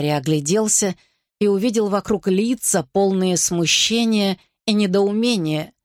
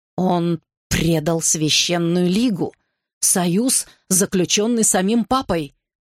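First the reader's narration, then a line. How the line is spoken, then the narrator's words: Growl. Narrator (Russian): прорычал Комптон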